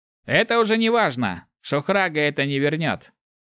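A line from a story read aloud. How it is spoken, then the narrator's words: Cold curt retort. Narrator (Russian): Холодно отрезал Ярис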